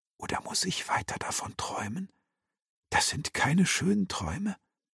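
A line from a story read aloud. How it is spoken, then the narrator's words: Boy whispering. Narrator (German): der Junge flüsternd hinzufügte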